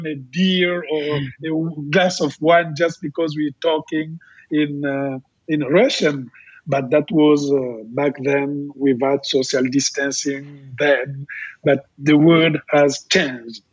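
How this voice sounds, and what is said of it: Congolese-accented English. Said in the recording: “like I'm speaking here in my broken English, but it's not a French accent, it's a Congolese accent”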